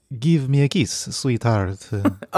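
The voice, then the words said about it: Put-on vampire-style accent. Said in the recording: “the accent ... Oh, like a vampire.”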